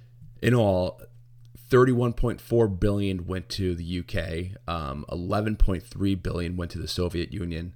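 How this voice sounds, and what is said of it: Crackly, hoarse voice. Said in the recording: “my voice is crackling. Damn China flu.”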